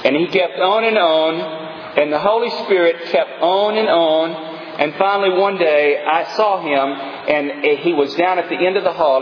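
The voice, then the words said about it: East Texas accent. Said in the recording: “I'm from East Texas. To my African brothers, that's the way we talk in East Texas. It took me years to get that East Texas accent gone, and I don't think I've succeeded yet.”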